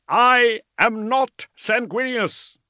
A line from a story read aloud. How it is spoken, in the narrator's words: he shouted